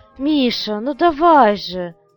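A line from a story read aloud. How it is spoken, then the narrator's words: Exclaimed. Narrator (Russian): воскликнула Людмила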